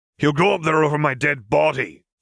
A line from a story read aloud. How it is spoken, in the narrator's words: Moody growled